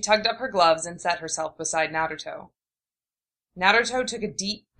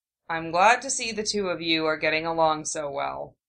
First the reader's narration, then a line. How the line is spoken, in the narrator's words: Sasuke said, a bit dryly